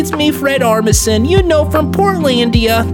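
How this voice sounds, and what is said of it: Old Jewish man character voice. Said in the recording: “I'm just going to do this voice ... You know that old Jewish, that sounding old Jew thing from the Broadway performances of Oh Hello? That's basically what my voice is”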